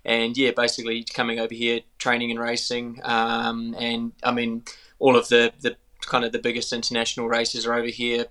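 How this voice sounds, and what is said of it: New Zealand accent. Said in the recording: “picked the accent already that you're from New Zealand originally ... getting my Kiwi accent back ... a bit of a hybrid sort of Aussie Kiwi”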